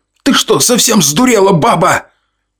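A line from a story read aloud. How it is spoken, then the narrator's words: Neighbor yelling. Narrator (Russian): кто-то из соседушек вопил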